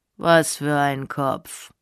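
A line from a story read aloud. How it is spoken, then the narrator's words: Very calm question. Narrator (German): fragte er ganz ruhig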